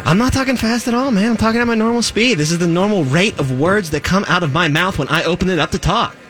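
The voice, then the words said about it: Very fast speech. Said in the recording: “Why are you talking so fast? ... It's like Mavis Beacon is typing in front of me, but with words.”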